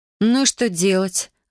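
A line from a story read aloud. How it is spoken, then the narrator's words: Sighing. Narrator (Russian): вздохнула я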